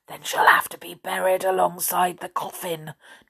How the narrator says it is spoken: Jack whispered

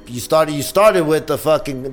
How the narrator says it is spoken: the podcast shouts

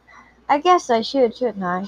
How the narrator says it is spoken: She laughed self-consciously

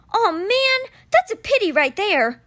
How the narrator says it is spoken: Alex … he yelled

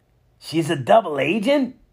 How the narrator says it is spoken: Harley exclaimed

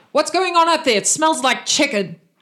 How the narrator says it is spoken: You hear from downstairs, you hear the captain shout

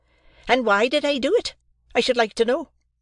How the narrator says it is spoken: exclaimed my sister

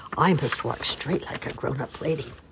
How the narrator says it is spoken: she whispered to herself

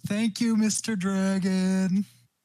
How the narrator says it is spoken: I'm gonna yell

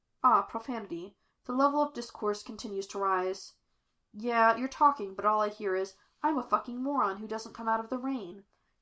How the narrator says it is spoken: Jim replied

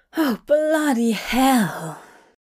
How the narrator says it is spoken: Hop said with a great sigh

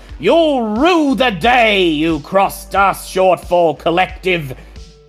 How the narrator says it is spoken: The voice through the speaker shouts

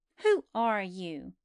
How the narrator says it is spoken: Joseph Bumble demanded of Buster quite fiercely

